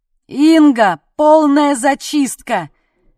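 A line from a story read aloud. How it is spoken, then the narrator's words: Shouting. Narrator (Russian): крикнул Сашка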